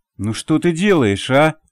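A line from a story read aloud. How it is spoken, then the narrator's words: Through clenched teeth. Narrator (Russian): процедил Олег Борисович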